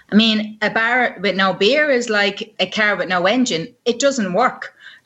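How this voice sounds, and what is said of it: Hybrid half Irish, half Welsh accent. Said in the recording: “Interesting hybrid accent there ... I love those hybrid accents, you know, kind of half Irish, kind of half Welsh.”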